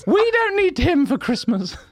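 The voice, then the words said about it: Imitates another person's voice. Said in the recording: “You're doing my voice, Dad.”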